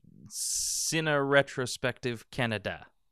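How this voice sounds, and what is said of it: Put-on French accent. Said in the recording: “with a French accent ... French accent on Canada”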